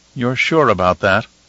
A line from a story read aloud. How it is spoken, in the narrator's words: Helena asked in a worried tone